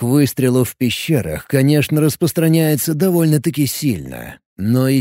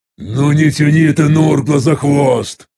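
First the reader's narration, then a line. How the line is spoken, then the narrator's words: Irritated growl. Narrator (Russian): рыкнул я раздраженно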